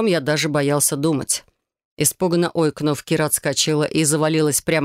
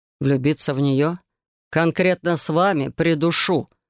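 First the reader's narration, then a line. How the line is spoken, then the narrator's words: Growled. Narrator (Russian): рыкнул я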